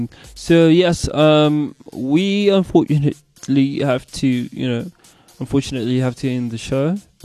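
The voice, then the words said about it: Put-on British accent. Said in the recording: “I'm back with my British accent, my famous British accent.”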